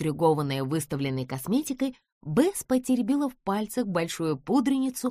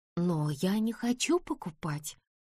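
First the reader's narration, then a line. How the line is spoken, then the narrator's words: Mumbled. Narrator (Russian): Пробормотала Бесс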